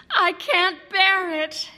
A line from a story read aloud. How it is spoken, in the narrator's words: Elizabeth wailed